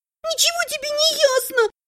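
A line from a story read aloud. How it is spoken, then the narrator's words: Shouting. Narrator (Russian): закричала Элиса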